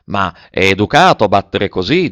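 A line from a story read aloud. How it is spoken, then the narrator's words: Plain. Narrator (Italian): disse Nanon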